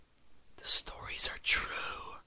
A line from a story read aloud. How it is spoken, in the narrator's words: she whispered, a dry whisper that seemed to come from far away